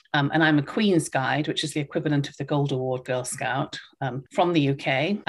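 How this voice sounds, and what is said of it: British accent. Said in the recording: “I think everybody can probably tell from my accent that I grew up in the UK.”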